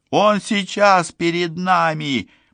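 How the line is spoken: Almost shouting. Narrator (Russian): почти крикнула Мелисса

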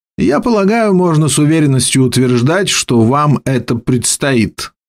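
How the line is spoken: Plain. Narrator (Russian): сказал он мне

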